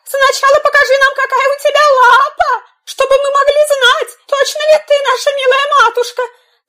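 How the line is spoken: Young kids shouting. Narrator (Russian): Козляточки закричали

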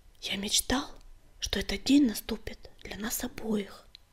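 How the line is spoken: Whispered. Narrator (Russian): прошептал он

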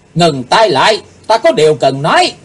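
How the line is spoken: Deep sharp shout. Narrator (Vietnamese): Chàng nắng trầm rồi quát

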